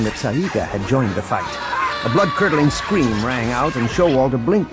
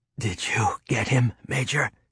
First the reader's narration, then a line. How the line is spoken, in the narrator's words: she asked weakly